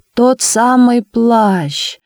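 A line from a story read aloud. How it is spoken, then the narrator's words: Loud singsong. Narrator (Russian): громко нараспев сказала Наина Георгиевна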